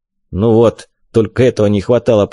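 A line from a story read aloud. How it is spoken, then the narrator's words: Grumbling. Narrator (Russian): проворчал Вик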